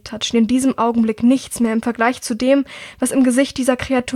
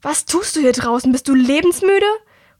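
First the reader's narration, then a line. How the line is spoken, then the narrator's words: Angry call. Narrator (German): rief ihr eine verärgerte Stimme entgegen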